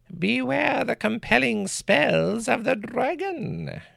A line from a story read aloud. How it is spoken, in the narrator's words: she replied with a cackle